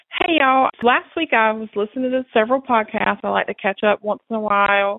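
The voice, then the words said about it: Southern American accent. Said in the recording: “I'm a sucker for a Southern accent.”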